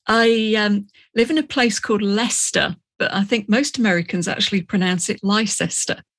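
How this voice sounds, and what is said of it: Non-American accent. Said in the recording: “you obviously you have a different accent than I do”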